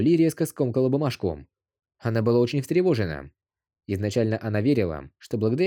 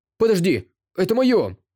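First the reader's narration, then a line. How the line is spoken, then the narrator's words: Panicked shout. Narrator (Russian): Панически крикнул Дагоу Цзы, когда Чен Джигуан убрал его сигареты в свой карман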